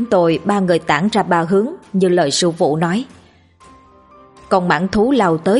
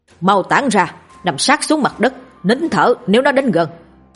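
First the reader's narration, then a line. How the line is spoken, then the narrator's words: Loud urgent shout. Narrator (Vietnamese): Sư phụ hét lớn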